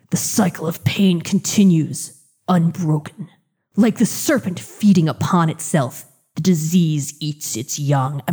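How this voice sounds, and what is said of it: Growly gravelly Batman-style voice. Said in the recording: “I'm trying to do the growly Batman voice... I can't get my voice that gravelly.”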